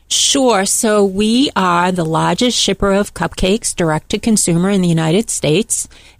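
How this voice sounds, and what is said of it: Boston accent. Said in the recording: “In case you didn't guess by hearing the accent ... I'm from Boston, Massachusetts”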